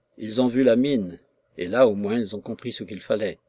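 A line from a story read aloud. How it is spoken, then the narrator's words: Plain reply. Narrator (French): répondit M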